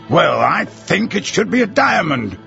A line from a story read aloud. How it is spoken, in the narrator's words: retorted the Colonel in an annoyed tone of voice